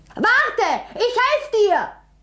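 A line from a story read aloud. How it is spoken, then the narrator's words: Calling out. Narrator (German): rief er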